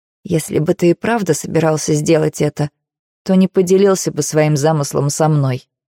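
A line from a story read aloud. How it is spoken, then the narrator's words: Hoarse reply. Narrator (Russian): сипло отвечаю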